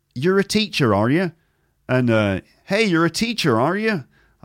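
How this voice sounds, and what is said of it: West Country then American accent, rounded Rs. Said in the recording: “the West Country accent that he's trying to do, that kind of, that Mr. Frodo, that sort of West Country accent like that. It's not a million miles away from an American accent because they have that sort of rounded R sound ... They're quite similar in some aspects, like particularly the R sounds”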